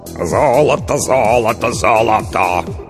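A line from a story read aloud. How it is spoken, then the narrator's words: Hoarse bass singing. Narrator (Russian): хриплым басом пропел Толик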